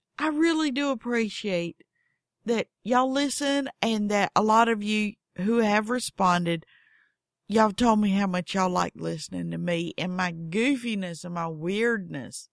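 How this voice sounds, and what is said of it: Strong Southern American accent. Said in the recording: “I have a weird voice. I have a weird accent. ... I am crazy Southern.”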